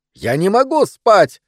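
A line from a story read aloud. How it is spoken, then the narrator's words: Shrill scream. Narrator (Russian): визгливо закричал он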